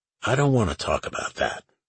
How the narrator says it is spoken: Lucas said

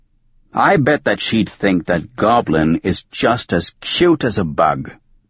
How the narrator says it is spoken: One Eye said

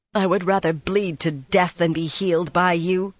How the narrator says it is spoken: she spat

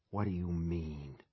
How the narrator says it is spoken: he whispers

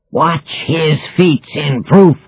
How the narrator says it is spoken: cried Caliban

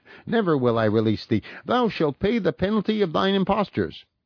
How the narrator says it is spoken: exclaimed

